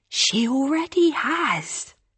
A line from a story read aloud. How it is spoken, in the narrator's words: Hannah says, her voice practically a whisper